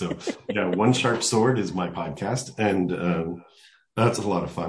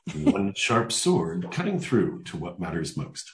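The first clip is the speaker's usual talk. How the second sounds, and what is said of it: Announcer-style podcast voice. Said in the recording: “I'll put on my podcast voice for you”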